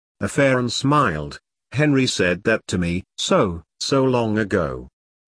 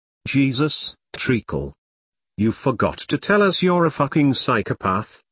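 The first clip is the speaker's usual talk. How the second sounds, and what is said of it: Passable Cockney accent. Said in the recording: “in a passable Cockney accent.”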